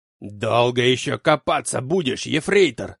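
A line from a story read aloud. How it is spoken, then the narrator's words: Angry bark. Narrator (Russian): зло гаркнул Клаус Мария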